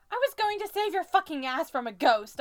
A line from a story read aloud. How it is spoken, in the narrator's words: I yell at Niall